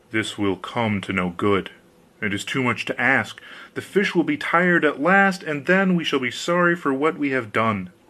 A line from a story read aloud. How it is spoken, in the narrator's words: he muttered as he went along